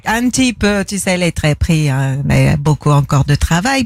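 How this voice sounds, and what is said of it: Celebrity impression with Belgian-style accent. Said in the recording (French): “Céline Dion vient d'arriver dans le studio ... depuis que vous êtes allé vivre en Belgique, hein, parce que ce petit accent là”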